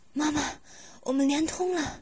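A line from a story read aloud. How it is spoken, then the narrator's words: Panting heavily. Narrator (Chinese): 他伏在我的身上，喘着粗气说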